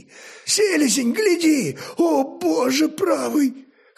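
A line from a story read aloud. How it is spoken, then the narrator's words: Hoarse exclamation. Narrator (Russian): хрипло воскликнул один из спутников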